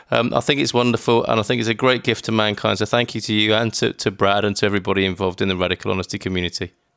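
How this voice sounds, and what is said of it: Speaks with a noticeable accent. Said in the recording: “I like your accent.”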